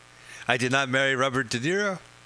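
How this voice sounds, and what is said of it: Attempted Italian accent sounding Russian. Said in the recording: “That's my Italian. It sounds Russian now.”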